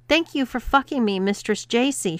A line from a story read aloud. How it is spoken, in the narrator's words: shouted Bob